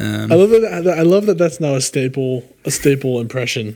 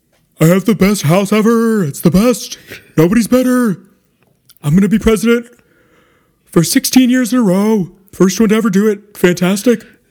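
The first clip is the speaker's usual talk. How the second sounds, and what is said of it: Donald Trump impression. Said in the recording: “Can you do a Trump impression? ... that your Trump?”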